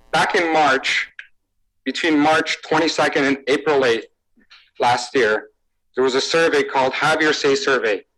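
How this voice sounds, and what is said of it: Romanian accent. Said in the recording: “this man is from Romania, and we've got a couple videos you will hear an accent”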